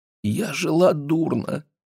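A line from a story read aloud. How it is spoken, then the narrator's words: Speaking through tears. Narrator (Russian): заговорила она сквозь слезы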